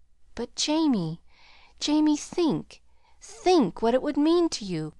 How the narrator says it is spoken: quavered Mrs

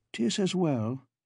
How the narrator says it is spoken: he said in a guarded tone

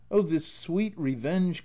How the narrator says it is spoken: cried he

